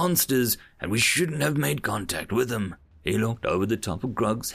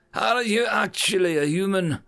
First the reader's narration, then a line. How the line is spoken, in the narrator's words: a voice shouted out in commotion